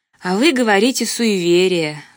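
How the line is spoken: Sighing. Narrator (Russian): вздохнула я

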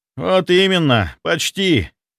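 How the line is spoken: Disappointed exhale. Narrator (Russian): Разочарованно выдохнул он

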